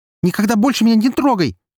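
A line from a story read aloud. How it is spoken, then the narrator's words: Girl screaming. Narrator (Russian): закричала девушка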